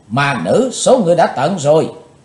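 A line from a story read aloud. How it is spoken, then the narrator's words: Shrill shout in unison. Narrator (Vietnamese): Hai thiếu nữ dẫn cung trang đồng thanh hét lên lanh lảnh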